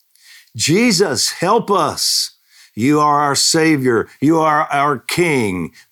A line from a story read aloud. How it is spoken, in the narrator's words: my voice cried